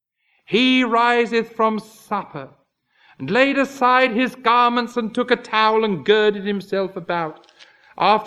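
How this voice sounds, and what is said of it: Accent that makes basin sound like bison. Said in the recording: “Some people with my accent are criticized for saying a bison.”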